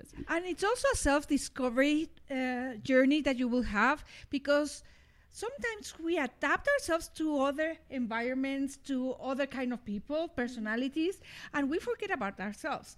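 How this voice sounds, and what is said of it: Non-native English accent. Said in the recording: “sorry about my accent. I speak many languages and I speak them every day, so it will take some time for me to start adjusting to English”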